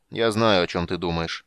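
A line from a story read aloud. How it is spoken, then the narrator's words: Grim interruption. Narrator (Russian): мрачно перебил его король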